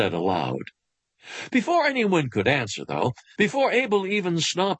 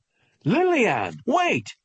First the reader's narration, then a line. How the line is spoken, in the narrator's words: her parents shouted after her